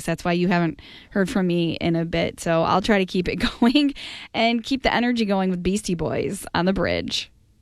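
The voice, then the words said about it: Strained, fading voice. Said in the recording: “losing my voice again? I keep losing my voice.”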